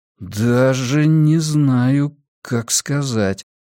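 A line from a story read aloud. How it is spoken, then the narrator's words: Drawling. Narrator (Russian): протянул я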